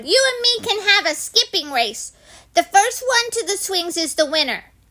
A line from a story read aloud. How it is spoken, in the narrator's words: I hollered